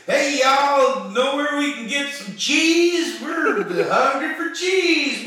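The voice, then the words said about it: Put-on American Midwest accent. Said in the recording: “speak in really, Midwest accents.”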